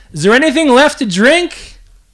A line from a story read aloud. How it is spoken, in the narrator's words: shouted in his ear